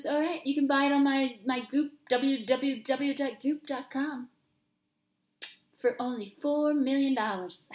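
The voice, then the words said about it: Imitates another person's voice. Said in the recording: “my Gwyneth Paltrow impersonation.”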